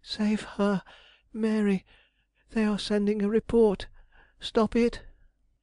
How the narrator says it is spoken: he gasped

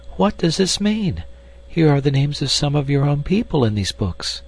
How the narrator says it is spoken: she cried

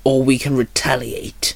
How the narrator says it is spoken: Tiger growled

